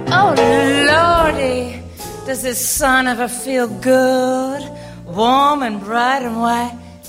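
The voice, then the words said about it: Southern accent. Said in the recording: “the dress had what was called a southern accent”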